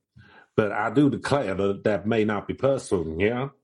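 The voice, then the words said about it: Put-on Louisiana Southern accent. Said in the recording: “terrible Louisiana accent ... that feels more, I don't know, a Louisiana hosting”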